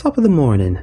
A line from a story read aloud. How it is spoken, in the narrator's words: I said in a squeaky voice